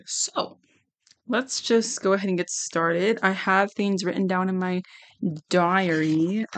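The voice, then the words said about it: Strained, worn-out voice. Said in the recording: “my voice is kind of shot”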